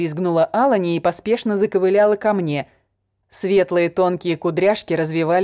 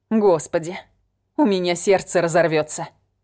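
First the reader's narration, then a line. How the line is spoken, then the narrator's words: Muttering. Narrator (Russian): Пробормотала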